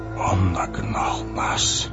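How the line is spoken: Whisper. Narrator (Russian): прошептал Гэндальф

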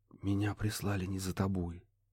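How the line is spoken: Soft gentle whisper. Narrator (Russian): шепнул он так, чтобы не спугнуть

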